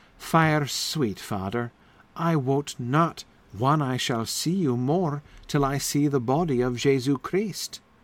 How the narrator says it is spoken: sighed

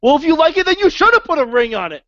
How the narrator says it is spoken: Like she just screams at

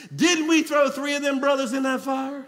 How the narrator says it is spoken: in amazement and exclaimed

